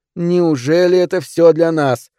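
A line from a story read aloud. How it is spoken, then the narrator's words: Loud singing. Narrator (Russian): пропела она как могла громко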